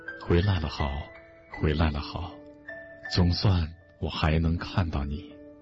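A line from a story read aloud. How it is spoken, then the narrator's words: Tearful murmur. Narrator (Chinese): 乳娘，她眼中泪水又滚落，只是喃喃地说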